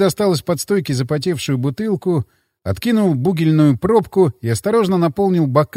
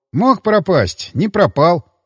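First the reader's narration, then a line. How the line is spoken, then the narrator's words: Snort. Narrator (Russian): хмыкнул я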